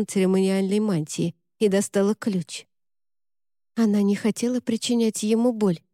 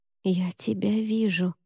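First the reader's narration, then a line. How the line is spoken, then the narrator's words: Whisper. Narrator (Russian): прошептала она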